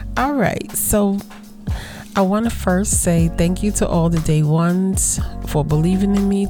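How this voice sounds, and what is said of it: Strained, husky, fading voice. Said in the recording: “I'm losing my voice though, ... so I might sound a little more sultry than I normally do, but I've been talking a lot”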